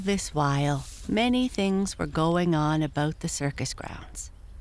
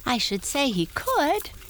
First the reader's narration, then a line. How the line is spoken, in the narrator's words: cried Tiny Tim with a laughing whinny